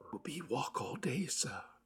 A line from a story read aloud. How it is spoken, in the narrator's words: whispered Poole